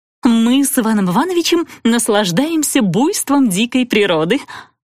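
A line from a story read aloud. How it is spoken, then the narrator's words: Giggling. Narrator (Russian): Натали хихикнула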